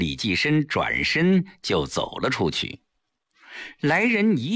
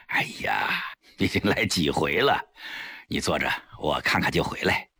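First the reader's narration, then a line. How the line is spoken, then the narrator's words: Wry smile. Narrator (Chinese): 李济深苦笑了一下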